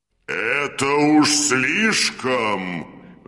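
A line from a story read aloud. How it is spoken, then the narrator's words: Roar. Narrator (Russian): взревел синяя борода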